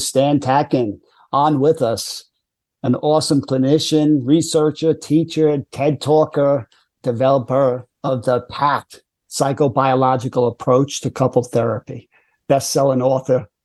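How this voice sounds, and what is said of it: Speaks with a noticeable regional accent. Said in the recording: “your accent for me already builds credibility. I just assume that somebody with your accent is credible.”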